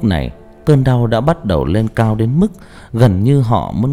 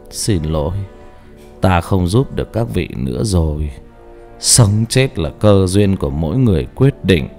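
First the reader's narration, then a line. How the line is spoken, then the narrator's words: Soft monk's voice. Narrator (Vietnamese): Vị sư khẽ nói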